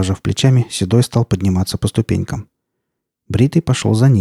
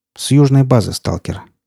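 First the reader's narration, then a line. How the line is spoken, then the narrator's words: Calm reply. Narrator (Russian): спокойно ответил тот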